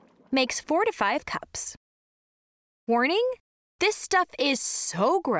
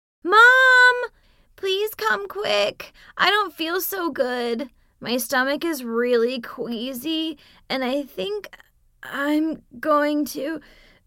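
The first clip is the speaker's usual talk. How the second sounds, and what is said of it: Whiny voice. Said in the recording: “in a really whiny voice,”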